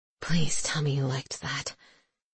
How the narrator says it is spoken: he whispers

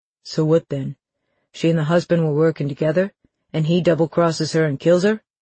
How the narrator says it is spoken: Dell asked

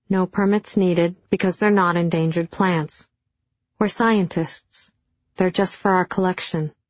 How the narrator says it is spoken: he explained calmly

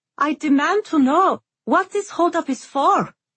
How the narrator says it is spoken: Safi cried at the new guard

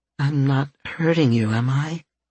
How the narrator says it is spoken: Fluff asked, her tone even softer than normal

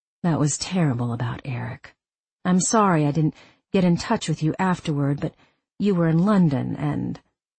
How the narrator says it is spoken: she said in a low voice

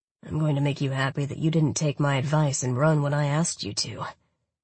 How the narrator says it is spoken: he muttered in between kisses

